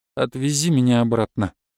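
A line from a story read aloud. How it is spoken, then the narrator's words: Tired voice. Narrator (Russian): уставшим голосом сказал я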